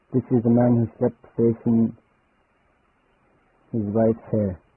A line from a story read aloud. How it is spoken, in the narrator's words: The elder replied after making a long yawn